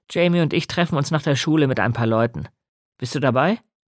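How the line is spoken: Loud. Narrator (German): sagte Nick laut

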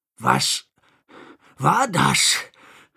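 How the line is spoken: Panting question. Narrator (German): fragte keuchend

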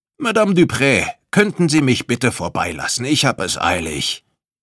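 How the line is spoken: Calling out. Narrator (German): rief

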